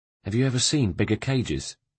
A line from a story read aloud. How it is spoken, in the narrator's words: said